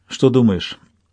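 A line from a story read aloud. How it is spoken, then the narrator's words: Plain. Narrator (Russian): спросил я Чейда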